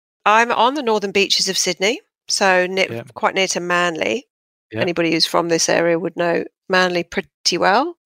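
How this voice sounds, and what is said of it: Southwest London accent, slight Aussie twang. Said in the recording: “I'm originally from southwest London, Fulham, as you can probably tell by my impeccable accent ... the Brits will probably be going, oh, she's got that Aussie twang”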